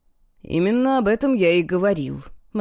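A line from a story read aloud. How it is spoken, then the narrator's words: Gloomy remark. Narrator (Russian): мрачно заметил Тайфун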